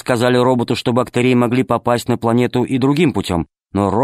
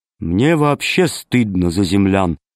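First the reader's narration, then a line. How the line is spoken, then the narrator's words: Gloomy. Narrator (Russian): сказал мрачно Зеленый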